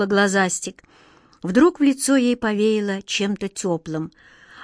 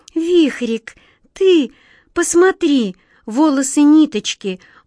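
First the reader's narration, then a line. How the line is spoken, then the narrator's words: Sorrowful exclamation. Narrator (Russian): горестно воскликнула глазастик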